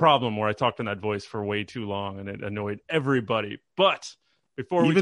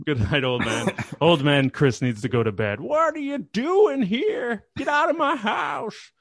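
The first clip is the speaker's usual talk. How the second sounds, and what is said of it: Old man character voice. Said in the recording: “my old man voice”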